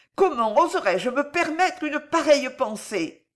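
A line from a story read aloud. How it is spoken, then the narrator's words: Panicked cry. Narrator (French): s'écria l'espionne affolée déjà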